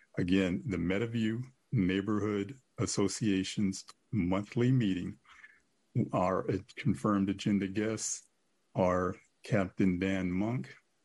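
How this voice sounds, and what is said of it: Voice in poor condition. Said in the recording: “I'm sorry, my voice is really bad.”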